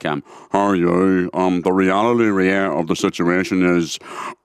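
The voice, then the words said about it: Imitates another person's voice, cow-like tone. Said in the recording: “my impersonation of Gerry Adams ... it was the tone of a cow that I actually used to do Gerry Adams”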